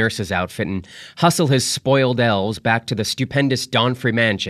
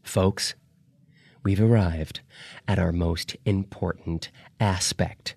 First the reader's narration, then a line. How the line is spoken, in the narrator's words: she said softly